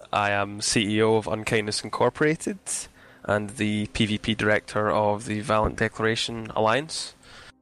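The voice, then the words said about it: Strong Scottish accent. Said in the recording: “I am mad and Scottish and have a horrible accent”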